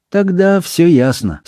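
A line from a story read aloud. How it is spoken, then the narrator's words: Sad. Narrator (Russian): сказала мисс Марпл, печально покачивая головой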